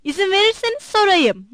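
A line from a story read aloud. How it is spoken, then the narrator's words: Shouted. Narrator (Turkish): diye bağırdı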